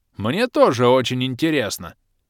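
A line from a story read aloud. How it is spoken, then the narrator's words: Growled. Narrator (Russian): прорычал Бом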